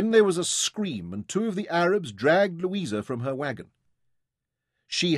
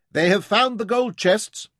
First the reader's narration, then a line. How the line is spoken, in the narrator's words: There was a shout